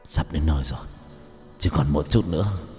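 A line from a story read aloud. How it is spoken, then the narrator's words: Labored muttering. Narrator (Vietnamese): hắn ta khó khăn, miệng lẩm bẩm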